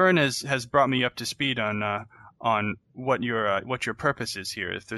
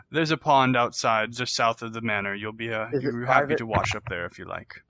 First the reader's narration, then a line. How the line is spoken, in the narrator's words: He chuckles and says